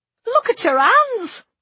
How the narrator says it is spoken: exclaimed Tamsin's mother

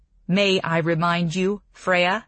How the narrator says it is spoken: my father said, his voice sharp now

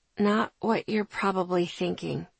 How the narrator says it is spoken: I said quietly

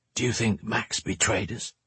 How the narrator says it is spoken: he whispered

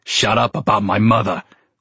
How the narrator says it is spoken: barked

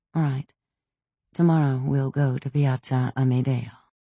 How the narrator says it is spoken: I murmured

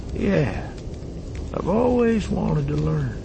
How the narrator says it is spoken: Beckett said wistfully

